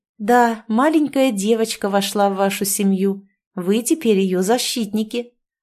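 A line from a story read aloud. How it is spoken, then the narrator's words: Plain. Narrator (Russian): ответила я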